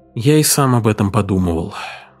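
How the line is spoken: Sigh. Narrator (Russian): вздохнул Бернстейн

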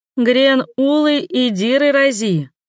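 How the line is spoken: Hoarse, suppressing laughter. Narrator (Russian): просипела, подавляя смех

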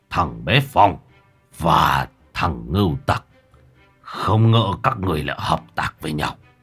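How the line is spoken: Harsh, gritted voice. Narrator (Vietnamese): Mặc Lão gằn giọng

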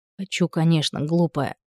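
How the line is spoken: Whisper. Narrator (Russian): шепнул он

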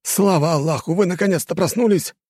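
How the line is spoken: Yelling. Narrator (Russian): заорал

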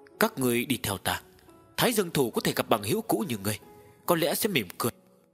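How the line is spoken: Sighing. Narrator (Vietnamese): Tộc trưởng thở dài

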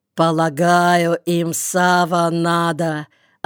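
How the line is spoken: Deep bass voice. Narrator (Russian): ответил Мендел басом

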